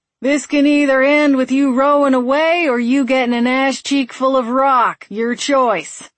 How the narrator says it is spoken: yelled

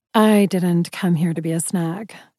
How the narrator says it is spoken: replied smoothly

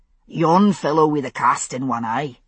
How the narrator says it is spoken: he said in a subdued bellow

